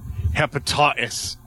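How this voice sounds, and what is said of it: Put-on British accent. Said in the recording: “I'm gonna try Bobby's British accent.”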